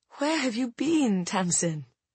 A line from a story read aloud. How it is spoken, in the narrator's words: I whispered